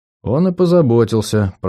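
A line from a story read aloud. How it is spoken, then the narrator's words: Muttered. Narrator (Russian): пробормотал я, не сдержавшись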